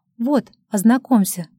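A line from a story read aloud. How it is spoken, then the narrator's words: Solemn tone. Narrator (Russian): торжественным тоном произнес Анг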